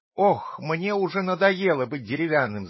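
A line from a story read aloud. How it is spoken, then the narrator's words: Shout. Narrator (Russian): закричал Пиноккио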